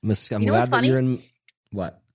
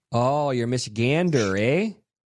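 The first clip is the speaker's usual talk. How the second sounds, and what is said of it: Put-on northern Midwestern accent. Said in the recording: “I really thought they would have northern accents here... There's no northern accents here... No one speaks like this, huh?”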